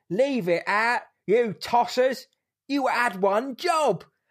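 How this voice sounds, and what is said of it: Over-the-top London accent. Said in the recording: “His London accent is outrageous.”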